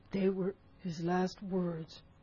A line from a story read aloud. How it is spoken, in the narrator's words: moaned Morgan